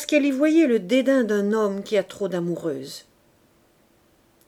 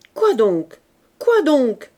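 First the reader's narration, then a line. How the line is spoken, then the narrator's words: Stammering. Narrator (French): bégaya Bazouge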